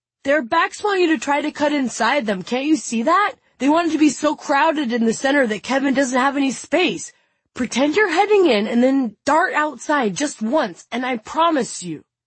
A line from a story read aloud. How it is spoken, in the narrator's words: shouts